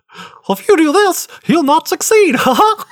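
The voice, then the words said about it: Not-very-good Mickey Mouse voice. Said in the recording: “do a Mickey Mouse voice ... I can't do a very good Mickey.”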